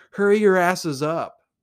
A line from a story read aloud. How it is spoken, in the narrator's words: yelling